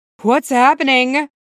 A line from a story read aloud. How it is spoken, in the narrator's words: the mayor called out as he looked around the dark venue